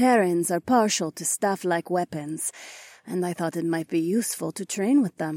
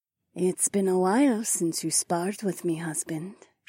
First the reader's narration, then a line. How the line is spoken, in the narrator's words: she purred